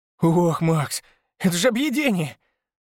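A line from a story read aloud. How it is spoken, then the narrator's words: Exclaiming with full mouth. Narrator (Russian): воскликнул он с набитым ртом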